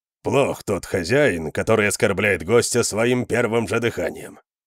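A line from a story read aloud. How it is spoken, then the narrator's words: Grumbling. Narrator (Russian): проворчал Конан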